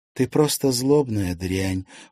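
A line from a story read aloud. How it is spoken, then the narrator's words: Weary. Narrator (Russian): устало произнесла Лиза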